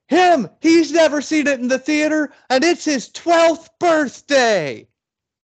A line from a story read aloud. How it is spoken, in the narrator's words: My mother not only turned me in, but she stood up, pointed to me, and yelled